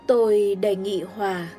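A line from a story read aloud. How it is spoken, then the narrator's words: Choked sighing voice. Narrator (Vietnamese): Melnikov thở dài nghẹn ngào nói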